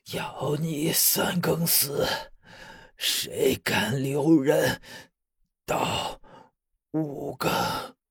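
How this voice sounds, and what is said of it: Indistinct, muffled voice. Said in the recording (Chinese): “用模糊的声音说道”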